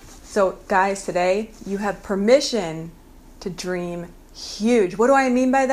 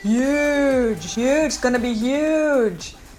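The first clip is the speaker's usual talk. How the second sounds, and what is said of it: Imitates another person's voice. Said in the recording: “One of my favorite impersonations right now is of Donald Trump”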